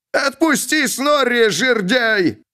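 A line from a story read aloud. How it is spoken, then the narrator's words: Shouting. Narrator (Russian): закричал Снорри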